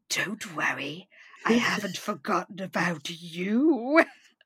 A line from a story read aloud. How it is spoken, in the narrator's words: in what I can only describe as a sinister fashion, she whispers